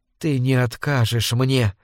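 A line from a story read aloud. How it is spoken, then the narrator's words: Close whisper. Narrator (Russian): прошептала она, вплотную приблизившись к нему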